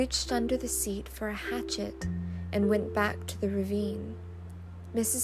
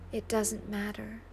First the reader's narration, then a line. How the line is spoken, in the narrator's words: murmured